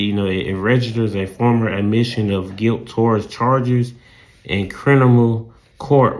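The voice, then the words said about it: Southern accent. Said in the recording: “my southern accent and my speech problems”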